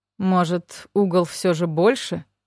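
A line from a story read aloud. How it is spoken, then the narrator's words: Muttering. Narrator (Russian): пробормотал второй криминалист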